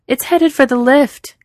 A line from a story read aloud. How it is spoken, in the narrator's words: Capable yells